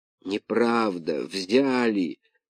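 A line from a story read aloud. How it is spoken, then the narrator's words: Moaning. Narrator (Russian): простонал Артемон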